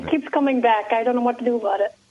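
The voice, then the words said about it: Irish accent. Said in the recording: “You got that Irish accent. I hear it. You still have it. ... it's a lovely accent.”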